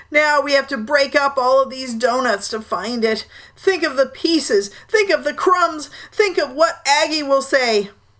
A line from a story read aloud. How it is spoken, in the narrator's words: moaned Uncle Ulysses